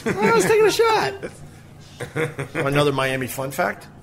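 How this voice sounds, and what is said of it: Uncomfortably high-pitched voice. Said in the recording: “my uncomfortable high voice”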